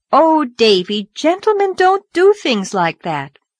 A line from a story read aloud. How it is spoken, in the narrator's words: Anne promptly exclaimed with her best schoolma'am air